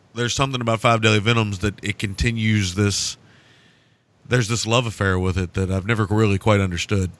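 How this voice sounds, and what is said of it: Hoarse, failing voice. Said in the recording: “clear my throat ... losing my voice as we speak here”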